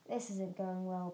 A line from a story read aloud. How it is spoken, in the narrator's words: Bird muttered